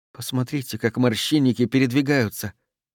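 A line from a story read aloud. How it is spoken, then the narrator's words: Whispered. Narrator (Russian): прошептала Марго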